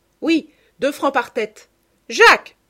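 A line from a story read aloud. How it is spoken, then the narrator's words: Immediate shout. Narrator (French): crie-t-elle aussitôt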